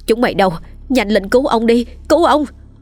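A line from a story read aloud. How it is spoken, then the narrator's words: Loud scream. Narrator (Vietnamese): bà cả Xuân thét lớn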